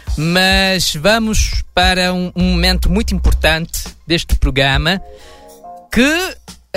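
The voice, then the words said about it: Put-on European Portuguese accent. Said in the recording (Portuguese): “eu achei que você ia voltar falando com sotaque lusitano ... meu sotaque não, não é muito credível ... você não precisava fazer o sotaque”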